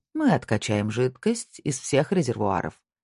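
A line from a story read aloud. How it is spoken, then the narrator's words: Calm statement. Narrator (Russian): спокойно сказал Снейдер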